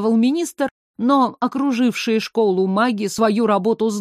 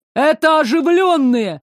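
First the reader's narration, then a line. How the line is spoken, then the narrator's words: Delighted shout. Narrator (Russian): с восторгом крикнул один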